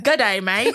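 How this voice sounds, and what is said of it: Put-on Australian accent. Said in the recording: “Do your accent. Do the accent so I can believe it. ... Australia, New Zealand”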